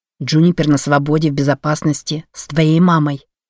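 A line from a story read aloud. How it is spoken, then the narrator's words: Plain. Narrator (Russian): ответил Ленокс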